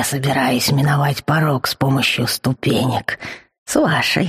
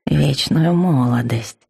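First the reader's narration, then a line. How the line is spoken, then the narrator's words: Absent-minded purring murmur. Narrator (Russian): рассеянно промурлыкал некромант себе под нос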